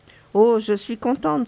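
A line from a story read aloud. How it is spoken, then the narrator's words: Exclaimed. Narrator (French): s'écrie Teresa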